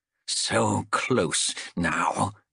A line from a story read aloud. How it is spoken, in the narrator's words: he muttered, over and over